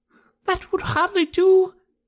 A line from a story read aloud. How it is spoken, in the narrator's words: he cried